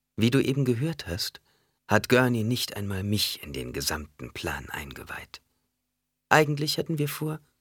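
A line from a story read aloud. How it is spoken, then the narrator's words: Gentle reply. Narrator (German): Jessica erwiderte sanft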